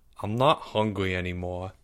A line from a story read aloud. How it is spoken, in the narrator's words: he mumbled